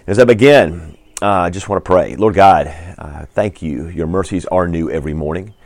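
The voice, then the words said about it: Slightly hoarse, tired voice. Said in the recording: “I'm a little sleep deprived and a little bit hoarse”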